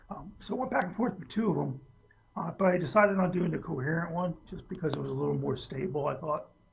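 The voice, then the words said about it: Strained, failing voice. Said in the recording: “I don't know why my voice is going today.”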